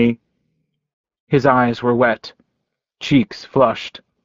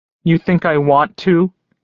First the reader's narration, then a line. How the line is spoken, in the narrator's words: He cried